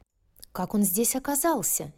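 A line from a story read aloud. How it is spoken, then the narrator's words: Quiet indignation. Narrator (Russian): тихо возмутилась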